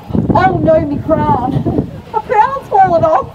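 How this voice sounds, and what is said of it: Slight Australian accent. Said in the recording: “just heard a little bit of me Australian accent then.”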